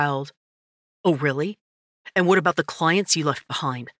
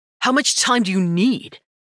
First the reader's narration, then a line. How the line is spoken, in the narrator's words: He asked, raising his voice just enough